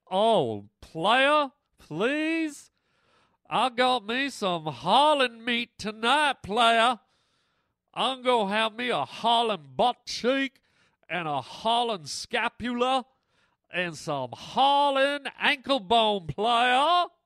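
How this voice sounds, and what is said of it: Put-on voice of talking coyote. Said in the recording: “I don't know what accent that was, but what the hell? If coyotes could talk, I hope they talk like that.”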